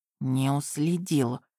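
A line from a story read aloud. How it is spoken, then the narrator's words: Whisper. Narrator (Russian): шепнул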